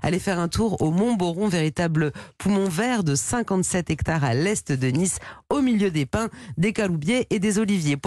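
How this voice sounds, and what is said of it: Put-on southwestern French accent. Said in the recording (French): “l'accent ... du sud-ouest”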